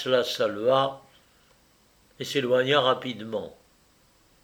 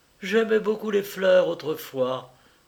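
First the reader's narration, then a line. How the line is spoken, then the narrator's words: Sighing sick woman. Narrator (French): dit la malade en soupirant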